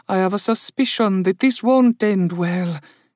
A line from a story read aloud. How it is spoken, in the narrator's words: Indali murmured